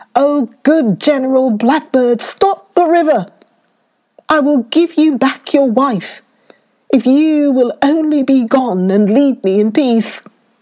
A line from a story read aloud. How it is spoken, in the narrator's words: At last, the king cried out